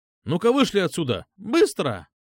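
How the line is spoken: Sharp shout, cracking voice. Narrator (Russian): Прикрикнул на нас лидер общественного мнения, и голос его чуть звякнул, пискнул, скрипнул

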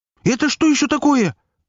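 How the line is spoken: Shrill squeal. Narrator (Russian): взвизгнул Филатов

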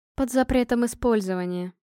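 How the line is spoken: Grim smirk. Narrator (Russian): мрачно усмехнулась Горха

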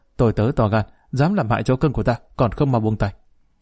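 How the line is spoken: Angry shout. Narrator (Vietnamese): Vương Tư Nân đang lúc thích thú thấy Mã Kiều làm hại chó cưng của y, không khỏi giận dữ quát

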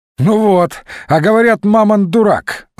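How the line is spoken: Laughing, general. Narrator (Russian): засмеялся генерал

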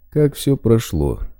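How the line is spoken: Displeased interruption. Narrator (Russian): перебил его Лозинский недовольным тоном

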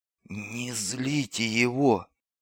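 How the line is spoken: Distant whisper. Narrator (Russian): прошептал кто-то из клетки в противоположном ряду

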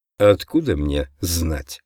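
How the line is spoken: Grumbled. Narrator (Russian): пробурчал я

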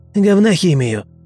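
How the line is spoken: Snapping retort. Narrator (Russian): огрызнулся лаборант

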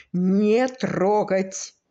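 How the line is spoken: Laughing. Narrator (Russian): Сережа засмеялся

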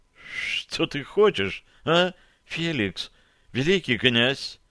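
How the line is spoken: Barely forced out. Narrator (Russian): еле выдавила она

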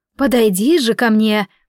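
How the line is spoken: Booming voice imitation. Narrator (Russian): подражая моему голосу, прогудело оно

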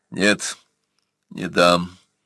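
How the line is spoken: Tired objection. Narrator (Russian): устало возразил Бурса

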